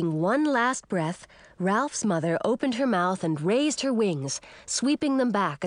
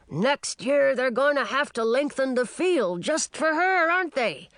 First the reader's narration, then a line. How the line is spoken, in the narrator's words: An older dragon with rust-red scales bellowed to Ralph's father